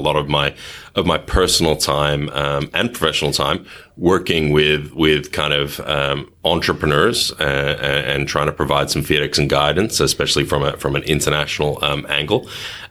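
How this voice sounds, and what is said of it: Thick Australian accent. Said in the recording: “I have a relatively thick Australian accent”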